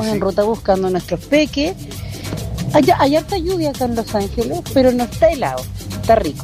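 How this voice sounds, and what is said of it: Polished radio announcer voice. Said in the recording (Spanish): “se tenía escondida una voz de locutora”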